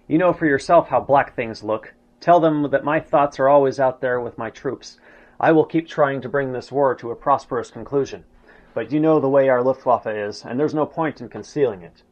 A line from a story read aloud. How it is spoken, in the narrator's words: With a sigh of resignation, Hitler told him